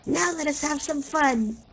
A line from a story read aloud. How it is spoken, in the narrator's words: cried one